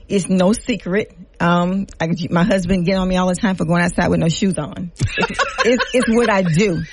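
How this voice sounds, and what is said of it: Louisiana Creole accent. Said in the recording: “You can hear the Creole accent.”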